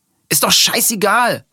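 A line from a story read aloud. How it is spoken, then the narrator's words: Shouting, cutting in. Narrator (German): ruft Nils, ehe die beiden antworten können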